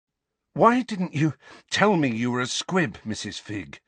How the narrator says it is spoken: asked Harry, panting with the effort to keep walking

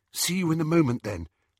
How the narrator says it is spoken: said Hermione nervously

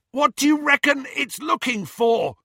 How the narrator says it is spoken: Ron yelled as they flew further and further north

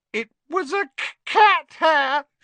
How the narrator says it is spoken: she howled

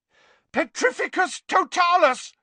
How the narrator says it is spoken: yelled Harry

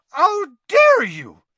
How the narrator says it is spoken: shrieked Madame Maxime

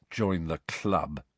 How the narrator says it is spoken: said Harry bitterly

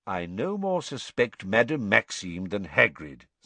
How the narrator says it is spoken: said Dumbledore, just as calmly

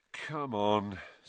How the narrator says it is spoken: said Harry wearily

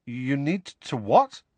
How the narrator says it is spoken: said Harry, nervously

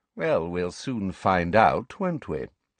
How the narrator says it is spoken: said Snape smoothly

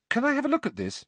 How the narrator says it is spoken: Harry asked Luna eagerly

